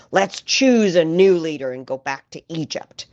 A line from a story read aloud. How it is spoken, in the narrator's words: Bitterly hissed